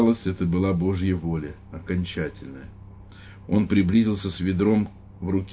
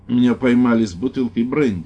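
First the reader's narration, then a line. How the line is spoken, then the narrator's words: Forced loud voice. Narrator (Russian): ответил священник, стараясь говорить громким голосом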